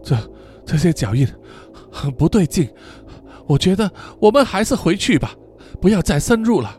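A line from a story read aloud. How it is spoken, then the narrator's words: Uneasy, hurried. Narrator (Chinese): 天照心中深深感到不安，急忙对他说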